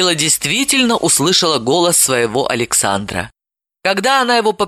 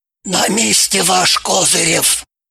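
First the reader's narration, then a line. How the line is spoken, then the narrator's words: Triumphant whisper. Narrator (Russian): торжествующе ей трубку вернул, прошептав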